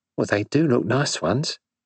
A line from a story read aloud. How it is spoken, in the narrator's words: said Dorothy